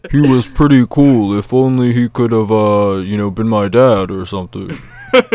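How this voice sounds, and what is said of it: Deep Darth Vader-style voice. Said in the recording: “That's a great James Earl Jones impression,”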